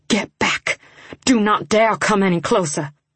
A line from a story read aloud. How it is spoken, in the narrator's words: My teeth gritted together, and I hissed